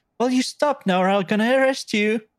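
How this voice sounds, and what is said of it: Put-on polite English accent. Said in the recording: “polite Englishman ... That's my English accent.”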